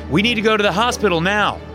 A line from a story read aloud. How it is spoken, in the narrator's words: I yelled up to Brianna